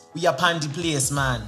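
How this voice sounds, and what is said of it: Put-on Jamaican patois accent. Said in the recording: “Like, patois, like, accent.”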